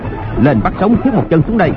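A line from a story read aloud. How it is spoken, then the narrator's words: Commanding shout. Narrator (Vietnamese): Hoàng Nhan Hồng Liệt quát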